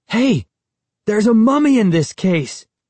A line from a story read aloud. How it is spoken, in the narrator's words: I exclaimed